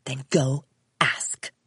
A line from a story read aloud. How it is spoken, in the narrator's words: her mother hissed, her blue eyes flashing with anger